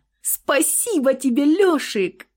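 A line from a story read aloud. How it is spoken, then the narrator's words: Happy squeal. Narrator (Russian): завизжала счастливо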